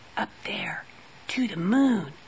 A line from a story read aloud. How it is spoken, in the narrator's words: Sally whispered